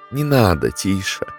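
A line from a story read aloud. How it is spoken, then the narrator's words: Quiet. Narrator (Russian): тихо сказала Катерина Петровна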